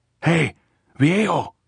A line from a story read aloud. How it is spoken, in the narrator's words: she shouted